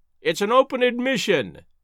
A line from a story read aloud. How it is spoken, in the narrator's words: he cried